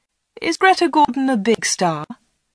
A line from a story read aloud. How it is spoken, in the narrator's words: Anna laughed